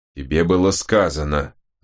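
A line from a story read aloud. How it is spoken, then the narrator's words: Growling. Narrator (Russian): зарычал Чизуэлл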